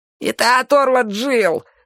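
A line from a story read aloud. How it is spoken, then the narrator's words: Thin man, weak squeak. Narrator (Russian): слабо пискнул тощий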